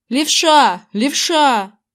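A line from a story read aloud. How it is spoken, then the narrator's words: Yelling through cupped hands. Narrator (Russian): Зак сложил ладони чашечкой у рта и заорал в них, как в мегафон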